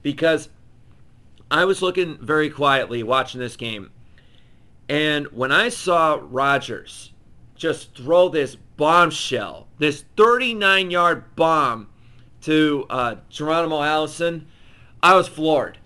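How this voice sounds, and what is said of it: Hoarse, worn-out voice. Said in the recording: “my voice is gone. It's shot.”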